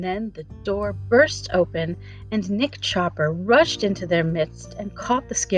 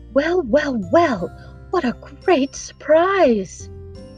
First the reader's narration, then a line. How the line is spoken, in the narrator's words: they suddenly heard a loud voice in the next room exclaim